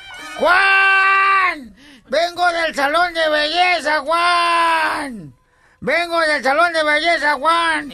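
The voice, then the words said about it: Shouting. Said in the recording (Spanish): “sale un señor gritando ... ¿por qué gritas?”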